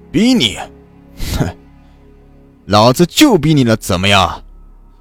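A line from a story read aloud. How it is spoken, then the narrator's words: Contemptuous sneer. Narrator (Chinese): 皮衣男人不屑一笑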